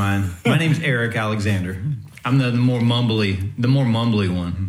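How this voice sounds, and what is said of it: Usual voice. Nothing is said of it.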